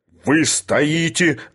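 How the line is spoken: Growling. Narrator (Russian): рычал Филипп Филиппович

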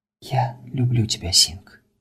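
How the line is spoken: Whispering. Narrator (Russian): шептала Анатолия

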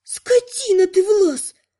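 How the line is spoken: Moaning woman. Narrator (Russian): простонала Лана

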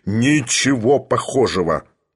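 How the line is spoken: Thunderous voice. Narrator (Russian): громовым голосом ответил Филипп Филиппович

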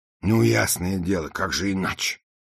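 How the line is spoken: Grumbling movers. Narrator (Russian): проворчали грузчики

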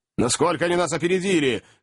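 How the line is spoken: Shout. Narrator (Russian): крикнул Ордль

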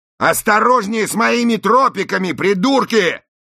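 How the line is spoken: Yelling. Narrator (Russian): заорал пластик

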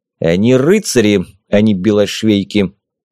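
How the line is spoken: Firm, clipped. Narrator (Russian): непреклонно отчеканил слова фон Рихерт

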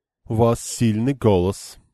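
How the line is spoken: Dry remark. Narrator (Russian): сухо заметила она

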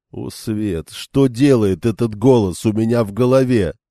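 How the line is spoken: Groaning. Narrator (Russian): простонал Льюс Терин

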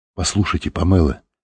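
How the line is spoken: Plain. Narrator (Russian): сказал Лэнгдон

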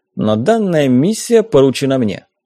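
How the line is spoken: Slightly irritated. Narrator (Russian): немного раздраженно сообщили

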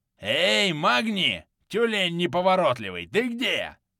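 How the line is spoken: Roar. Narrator (Russian): взревел Снорриссон

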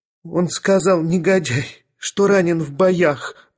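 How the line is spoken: Sobbing young lady. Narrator (Russian): рыдала барышня

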